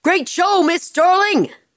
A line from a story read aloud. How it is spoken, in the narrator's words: One of the stagehands shouted